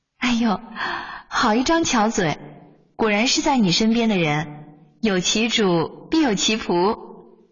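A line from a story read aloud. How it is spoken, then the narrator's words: Laughing. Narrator (Chinese): 梅庄笑起来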